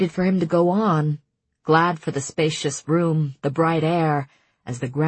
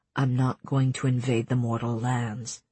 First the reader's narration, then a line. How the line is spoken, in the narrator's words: he said too quietly